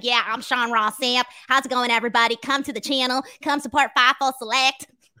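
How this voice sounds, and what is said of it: Imitates another person's voice, auctioneer-like. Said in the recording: “I can do yours, though ... I walk around talking like this ... Why do you sound like you're about to auction something off?”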